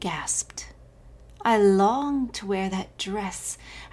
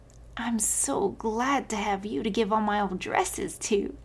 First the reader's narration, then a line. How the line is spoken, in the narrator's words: giggled